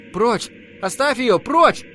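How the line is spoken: Shouting. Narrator (Russian): Знакомый голос крикнул

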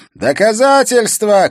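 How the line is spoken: Shouting, backed by others. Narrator (Russian): кричал Слагар, поддерживаемый некоторыми из его подельников

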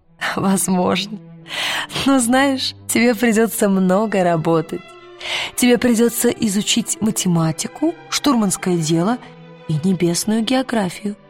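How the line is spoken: Laughing. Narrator (Russian): Миссис Колтер засмеялась и сказала

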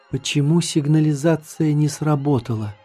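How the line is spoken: Sudden whisper. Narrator (Russian): вдруг прошептала Маша

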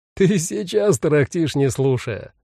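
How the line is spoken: Laughing over the phone. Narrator (Russian): рассмеялся на том конце провода Ян

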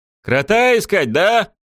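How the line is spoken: Shouted reply. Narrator (Russian): крикнула в ответ Шем

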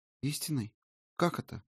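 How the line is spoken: Timid question. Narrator (Russian): робко спросила Ирма

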